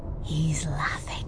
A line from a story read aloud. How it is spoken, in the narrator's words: Sissix whispered